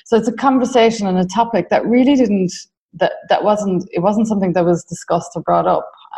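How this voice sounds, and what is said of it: Irish accent. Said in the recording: “As you can tell from my accent, I'm Irish”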